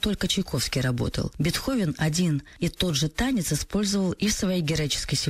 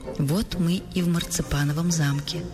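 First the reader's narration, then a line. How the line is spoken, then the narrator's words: Plain. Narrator (Russian): сказал Щелкунчик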